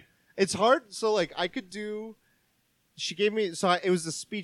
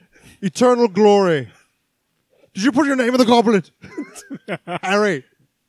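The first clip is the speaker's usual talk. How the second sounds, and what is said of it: Imitates Dumbledore's voice. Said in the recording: “give me that Dumbledore accent”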